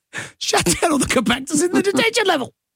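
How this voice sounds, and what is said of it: Imitates another person's voice. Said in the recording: “You're just going to do a voice that sounds like your version of Mark Hamill, aren't you?”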